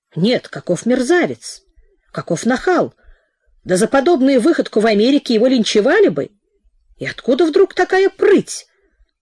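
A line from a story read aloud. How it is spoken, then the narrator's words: Talking aloud, whispering, shouting. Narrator (Russian): Сам с собой рассуждал он то полным голосом, то шепотом, то выкриком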